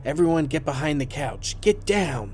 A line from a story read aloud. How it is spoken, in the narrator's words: He shouts